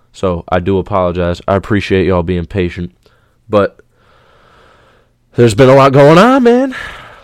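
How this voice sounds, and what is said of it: Slightly congested voice. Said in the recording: “If you can hear it in my voice ... I'm still a little congested in the head”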